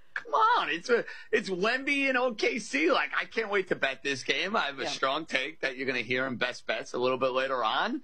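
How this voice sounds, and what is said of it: New York accent. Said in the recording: “I sound very much like a New Yorker. I don't think you're going to mistake my accent for being from the Midwest or being out in California”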